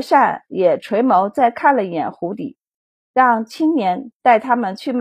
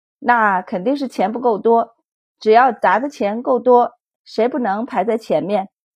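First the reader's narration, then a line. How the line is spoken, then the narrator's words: Smiling. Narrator (Chinese): 满宝笑了笑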